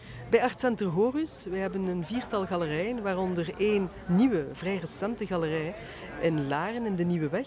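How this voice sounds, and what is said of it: Belgian Flemish accent in Dutch. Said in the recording (Dutch): “ik hoor een Belgisch accent”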